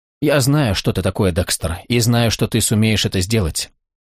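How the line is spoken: Quiet. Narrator (Russian): Дебора … негромко произнесла

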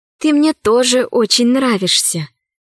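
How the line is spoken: Whisper. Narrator (Russian): шепнула Алиса

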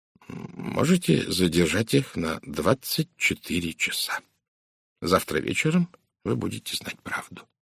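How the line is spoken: Quiet. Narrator (Russian): тихо сказал Пуаро

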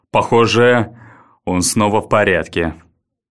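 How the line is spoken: Even voice, over phone. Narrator (Russian): ровным голосом произнес в трубку Баррис

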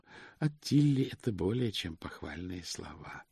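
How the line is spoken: Sighing. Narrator (Russian): сказал ветеринарий и вздохнул

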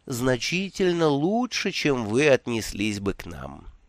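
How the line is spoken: Gentle interruption. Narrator (Russian): мягко прервал его тиран

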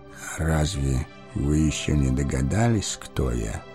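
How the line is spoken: Old man's quiet question. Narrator (Russian): тихо спросил старец

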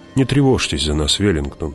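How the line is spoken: Soft. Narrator (Russian): мягко сказала Джессика

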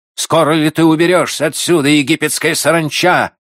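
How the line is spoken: Harsh distant shout. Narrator (Russian): крикнул резкий голос из самого темного уголка площади

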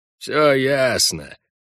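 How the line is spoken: Gruff mutter. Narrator (Russian): все сообразив, буркнул Хальгдаф

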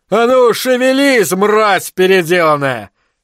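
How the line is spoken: Roared. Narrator (Russian): взревел Попури

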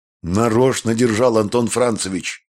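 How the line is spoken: Happy laughter. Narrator (Russian): смеялся в ответ счастливый Прошка

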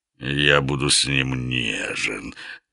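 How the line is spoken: Languid purr, lion. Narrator (Russian): томно промурлыкал лев

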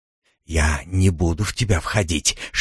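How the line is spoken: Whisper. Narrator (Russian): шепнул он

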